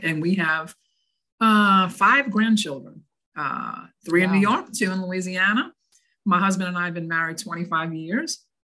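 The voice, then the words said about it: New Orleans Southern accent. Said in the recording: “Originally born and raised in New Orleans. So this accent you hear is not from up north.”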